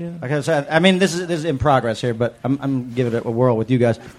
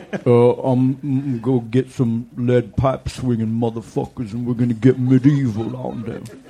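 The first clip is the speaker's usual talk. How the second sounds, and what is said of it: Imitates another person's voice. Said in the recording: “Ving Rhames... that was borderline Sling Blade”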